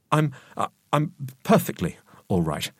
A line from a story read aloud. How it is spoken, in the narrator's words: I stammered